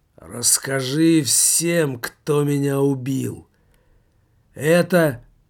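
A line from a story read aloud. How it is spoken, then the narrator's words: Slow beggar's voice. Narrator (Russian): нищий медленно проговорил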